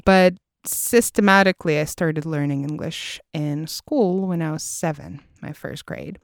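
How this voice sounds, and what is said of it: Non-native English with American accent. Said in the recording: “I spent some of my high school time uh, studying in the US. You can probably hear that from my English ... a specific accent”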